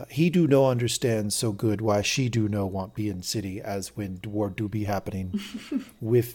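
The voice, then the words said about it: Terrible impression of Master Domon. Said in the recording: “That is a terrible impression... that's how that guy talks... That is not how that guy talks... Oh, that is so painful.”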